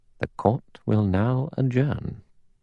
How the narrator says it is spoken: Philip Lombard murmured beneath his breath

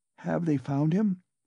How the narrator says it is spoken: she asked timidly

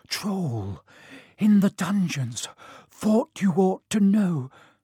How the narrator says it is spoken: he gasped

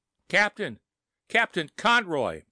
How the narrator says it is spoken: shouted

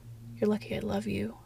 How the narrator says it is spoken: muttered

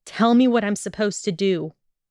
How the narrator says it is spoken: Draco snapped harshly

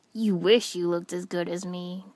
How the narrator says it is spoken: Kiba grumbled back

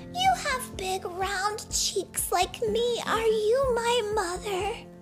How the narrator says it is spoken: cried

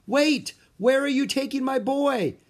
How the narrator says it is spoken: yelled

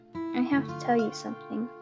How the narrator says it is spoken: Rosepaw muttered

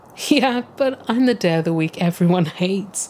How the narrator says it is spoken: Monday says, chuckling to himself despite the deep aching pain I can sense in his voice

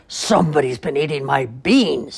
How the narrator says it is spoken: he growled in his great big rough, gruff voice

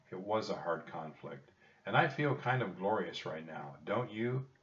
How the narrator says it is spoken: Jack laughed

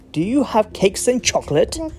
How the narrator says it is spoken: the highway robber cried

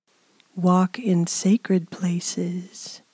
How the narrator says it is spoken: my beloved sigh beckons

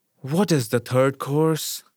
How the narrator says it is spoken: asked in a weary, injured voice

